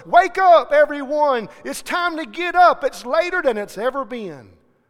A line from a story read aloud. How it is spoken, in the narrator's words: a little boy heard it, and he raced through the house yelling